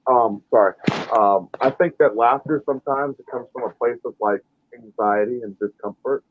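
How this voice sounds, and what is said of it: Voice sounds a little muffled. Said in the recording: “You sound a little muffled.”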